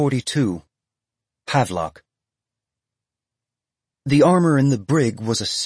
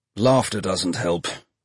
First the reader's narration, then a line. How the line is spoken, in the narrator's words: he said